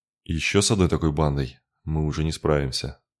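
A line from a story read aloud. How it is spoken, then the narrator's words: Gloomy. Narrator (Russian): мрачно подтвердил он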